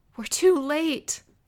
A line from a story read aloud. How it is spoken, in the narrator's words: I wailed